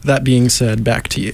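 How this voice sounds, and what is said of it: Booming announcer voice. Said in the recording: “excellent job with the announcer voice... You sound like you're ready for, I don't know, WWE... I've been practicing my radio talk”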